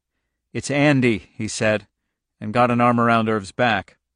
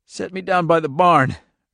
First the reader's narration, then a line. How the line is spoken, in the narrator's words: Irv gasped